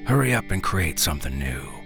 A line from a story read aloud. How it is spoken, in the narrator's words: he says